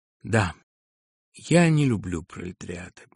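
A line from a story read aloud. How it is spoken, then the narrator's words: Sad agreement. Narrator (Russian): печально согласился Филипп Филиппович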